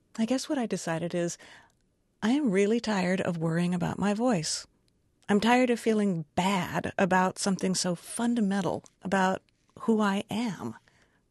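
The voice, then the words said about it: Creaky vocal fry voice. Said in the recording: “I have vocal fry. My voice creaks. It cracks sometimes.”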